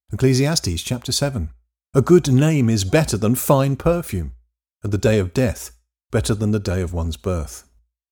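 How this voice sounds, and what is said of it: English accent. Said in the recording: “in an English accent”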